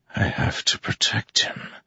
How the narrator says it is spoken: Kaladin whispered

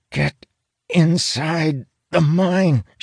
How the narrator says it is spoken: she hisses, sweat beating on her forehead

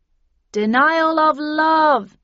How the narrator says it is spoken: yelled Ib and Ob from behind me

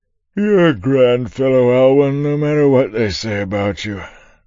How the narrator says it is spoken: said through one long yawn

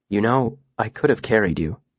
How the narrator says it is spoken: said softly

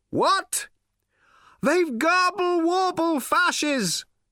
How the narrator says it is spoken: cried Slarty Bartfast

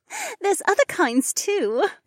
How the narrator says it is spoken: Becca laughed

